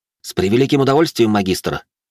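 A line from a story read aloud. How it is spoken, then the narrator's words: Angry snarl. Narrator (Russian): зло оскалился я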